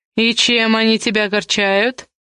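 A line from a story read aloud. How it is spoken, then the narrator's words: Mocking question. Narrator (Russian): насмешливо уточнил Камул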